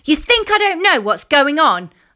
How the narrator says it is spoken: yelled

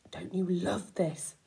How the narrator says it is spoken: he whispered to me

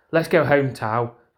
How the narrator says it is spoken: called out with the fierceness

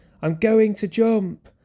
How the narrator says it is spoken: shouted down

